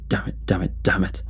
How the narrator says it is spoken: muttered, holding his chest

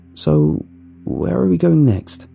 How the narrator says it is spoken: I asked in a shaky voice

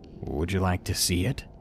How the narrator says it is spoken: He said it so calmly, as if he was trying to be seductive

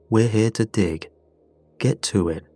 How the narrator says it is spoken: told us flatly

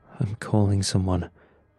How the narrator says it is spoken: he muttered

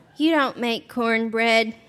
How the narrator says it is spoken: she told me in the same deflated voice

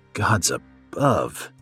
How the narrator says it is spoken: he groaned

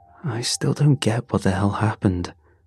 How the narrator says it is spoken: Raph muttered

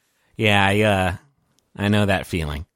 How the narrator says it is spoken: He kind of sighs, and he says

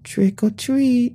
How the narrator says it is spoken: they squealed

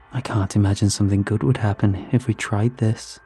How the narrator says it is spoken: she said, lowering her voice

